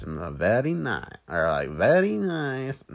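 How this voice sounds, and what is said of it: Poor Borat voice impression. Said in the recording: “doing the Borat voice ... No, I'm not very good at it ... I'm just the bad”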